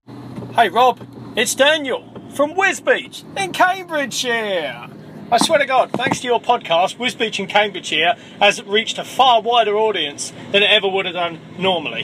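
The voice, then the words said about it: Distinctive regional accent. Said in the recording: “dude, I love your accent. It's amazing.”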